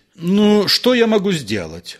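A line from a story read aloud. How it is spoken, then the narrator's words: Irritated question. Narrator (Russian): раздраженно спросил Персидский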